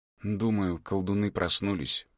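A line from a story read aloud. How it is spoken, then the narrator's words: Tired. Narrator (Russian): устало сказала Кови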